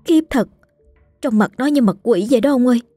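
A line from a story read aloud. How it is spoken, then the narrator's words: Frightened interjection. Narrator (Vietnamese): Cô gái ở bên cũng sợ hãi chêm vào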